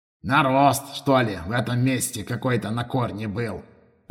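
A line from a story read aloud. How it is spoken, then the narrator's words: Muttered. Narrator (Russian): пробормотал Рапалыч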